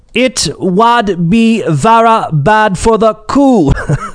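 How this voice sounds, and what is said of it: Attempted thick Northumberland accent. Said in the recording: “with his thick Northumberland accent ... I probably botched that accent.”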